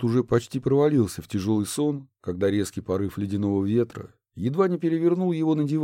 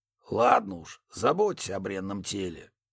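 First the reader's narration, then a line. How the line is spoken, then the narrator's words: Muttering. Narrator (Russian): пробурчал Рафаэль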